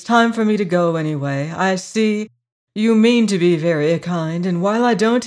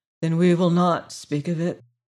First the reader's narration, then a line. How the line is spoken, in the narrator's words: said the girl wearily